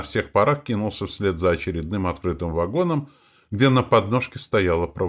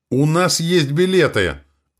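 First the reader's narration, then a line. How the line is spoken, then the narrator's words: Shouted. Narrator (Russian): выкрикнул Матвей Егорыч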